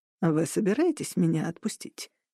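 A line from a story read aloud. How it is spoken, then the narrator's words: Quiet question. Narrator (Russian): тихо спросил Джек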